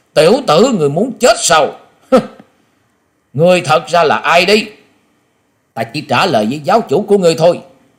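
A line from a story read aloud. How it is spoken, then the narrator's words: Sudden shout. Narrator (Vietnamese): Quả Dân Tôn giả chợt quát lên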